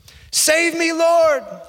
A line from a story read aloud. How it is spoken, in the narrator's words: he shouted